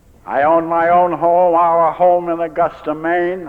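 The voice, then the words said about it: Down East Maine Yankee accent. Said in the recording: “I'm a down east Yankee drunk, as you can tell. This accent isn't Texas accent”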